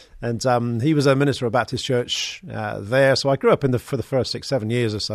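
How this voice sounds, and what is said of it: West Country English accent. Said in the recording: “I was born in Bristol, down in the West Country. You can probably hear a bit of the accent.”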